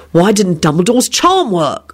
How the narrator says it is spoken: William blurted out

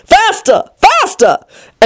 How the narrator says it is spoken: the queen still cried

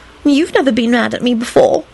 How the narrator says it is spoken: she added in a hurt voice

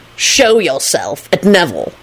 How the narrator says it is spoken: Lupin snapped at Kingsley

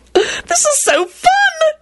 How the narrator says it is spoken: she squealed

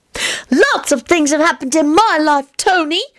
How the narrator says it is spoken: he chirped

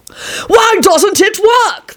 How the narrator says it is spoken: the king screamed at the charlatan

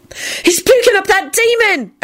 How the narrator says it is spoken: Esther wailed

